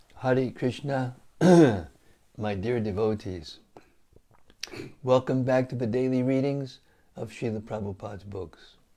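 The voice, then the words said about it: Rough, slightly hoarse voice. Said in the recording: “I've been talking all day, and therefore my voice is a little rough”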